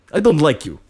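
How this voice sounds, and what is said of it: Put-on Russian accent. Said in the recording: “That was my accent, by the way. I had a dragonborn barbarian that was Russian”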